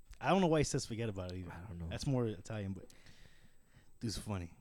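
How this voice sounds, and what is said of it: Usual voice. Nothing is said of it.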